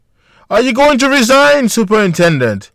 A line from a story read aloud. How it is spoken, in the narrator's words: a reporter screamed